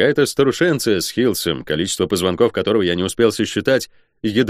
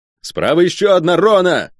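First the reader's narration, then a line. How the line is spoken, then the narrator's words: Shouted. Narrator (Russian): крикнул я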